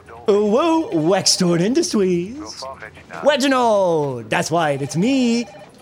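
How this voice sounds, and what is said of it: Cartoonish baby-like character voice. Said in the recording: “you sound like a Homestar runner ... That was supposed to be like a baby.”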